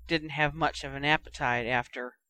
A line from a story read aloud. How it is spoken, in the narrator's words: muttered